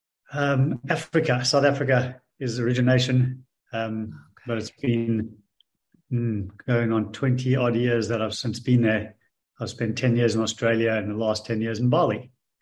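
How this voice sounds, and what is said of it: Slight Australian accent. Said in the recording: “you sound like you have a little Australian accent”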